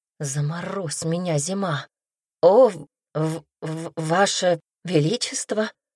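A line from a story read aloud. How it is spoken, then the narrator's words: Stammering. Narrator (Russian): заикаясь, произнесла Темпест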